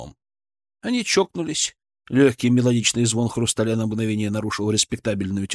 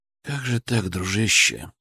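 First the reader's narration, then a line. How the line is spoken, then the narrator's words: Quiet. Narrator (Russian): тихо сказал я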